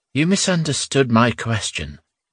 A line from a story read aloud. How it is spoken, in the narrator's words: said wearily